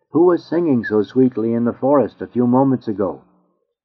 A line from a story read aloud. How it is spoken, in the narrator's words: exclaimed the noble